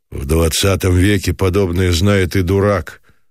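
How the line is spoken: Curt, gloomy. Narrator (Russian): отрезал мрачно Самсонов

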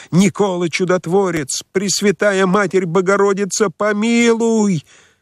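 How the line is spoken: Desperate wailing scream. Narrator (Russian): Кто-то вопил отчаянным воплем

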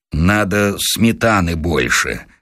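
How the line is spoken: Gloomy mutter. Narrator (Russian): хмуро пробормотал Василий Сергеевич

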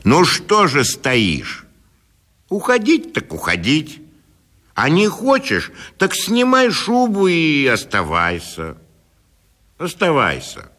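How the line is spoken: Stern annoyed shout. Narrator (Russian): досадуя на свою бесхарактерность, он крикнул ей сурово

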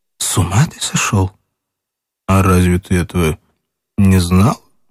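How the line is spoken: Trembling, indistinct voice. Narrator (Russian): она молчала долго, потом дрогнувшим неясным голосом ответила

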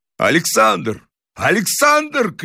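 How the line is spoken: Shouting. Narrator (Russian): крикнул Грибоедов

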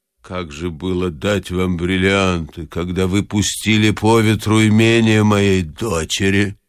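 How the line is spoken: Old woman, calm and angry. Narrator (Russian): спокойно и зло молвила старуха

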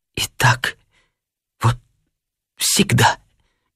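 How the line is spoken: Tearful mutter. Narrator (Russian): бормотала она сквозь слезы

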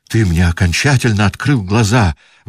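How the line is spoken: Exclaimed. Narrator (Russian): воскликнул он

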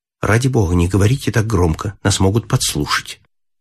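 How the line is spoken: Frightened quiet speech. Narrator (Russian): Она вся побледнела и тихо сказала

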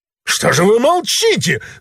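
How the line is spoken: Extremely loud yell. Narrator (Russian): заорал Бендер с такой силой, что на столе кинодеятеля звякнула телефонная трубка

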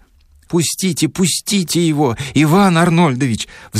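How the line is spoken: Two women pleading together. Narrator (Russian): взмолились одновременно обе женщины

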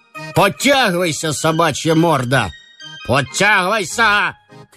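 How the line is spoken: Officer shouting. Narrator (Russian): кричал унтер-офицер

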